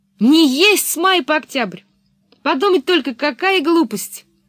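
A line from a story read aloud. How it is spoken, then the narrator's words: Shouted after a girl. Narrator (Russian): она крикнула вдогонку девочке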